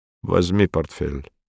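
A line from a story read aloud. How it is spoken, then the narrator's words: Gruff mumble. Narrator (Russian): буркнул он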